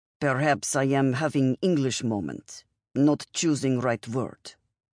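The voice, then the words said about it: Thick foreign accent. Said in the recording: “Her accent was thicker”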